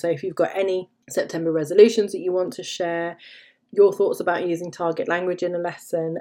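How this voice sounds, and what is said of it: Tired, fading hoarse voice. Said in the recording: “I've been rabbiting on for over half an hour and I'm losing my voice”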